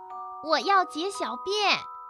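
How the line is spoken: Shouting. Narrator (Chinese): 阿尔菲喊道

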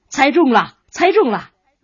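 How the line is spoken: Laughing, delighted. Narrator (Chinese): 画家顿时哈哈大笑，连声说

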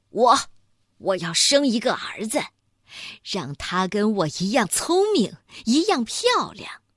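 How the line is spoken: Loud. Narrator (Chinese): 他大声地说

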